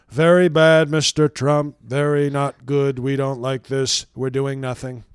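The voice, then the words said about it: Mock foreign official accent. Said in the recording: “Is that the accent for Denmark? ... That's just the UN, the official UN voice.”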